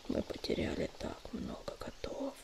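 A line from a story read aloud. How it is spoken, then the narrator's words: Whispered. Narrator (Russian): прошептал Огнезвезд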